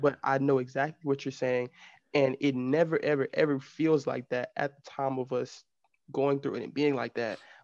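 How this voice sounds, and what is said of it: Southern Texas drawl. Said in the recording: “we call it a Southern drawl. And you can probably hear it a little bit more... sometimes I slur some of my words... I have a slur into my words... almost like an accent... I'm from the country. I'm from Texas.”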